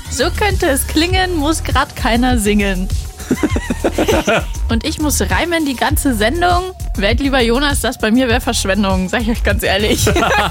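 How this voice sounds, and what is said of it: Rhyming in Bavarian dialect. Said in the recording (German): “auch noch auf Bayerisch.”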